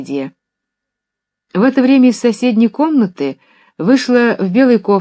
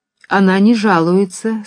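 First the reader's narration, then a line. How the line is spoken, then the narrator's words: Plain. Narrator (Russian): сказал Нехлюдов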